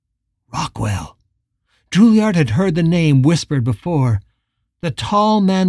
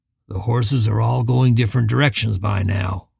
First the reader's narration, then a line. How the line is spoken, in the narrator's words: Rockwell said, his voice calm and steady